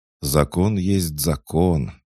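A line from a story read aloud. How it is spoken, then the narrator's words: Sad sigh. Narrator (Russian): грустно вздохнул офицер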